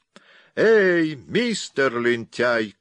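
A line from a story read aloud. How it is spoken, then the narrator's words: Shouting. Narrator (Russian): крикнула она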